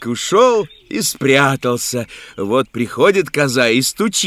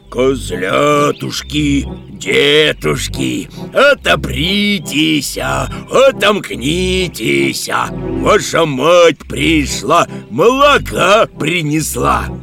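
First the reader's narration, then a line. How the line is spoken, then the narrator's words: Shouting in thick voice. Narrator (Russian): закричал своим толстым голосом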